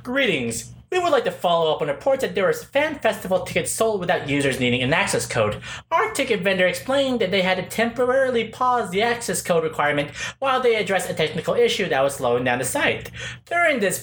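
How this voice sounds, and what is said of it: Corporate PR spokesperson voice. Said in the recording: “I'll do my PR voice ... Here's the PR voice.”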